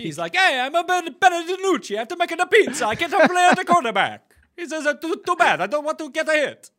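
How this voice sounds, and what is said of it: Bad put-on Italian accent. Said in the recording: “That was a really bad Italian accent.”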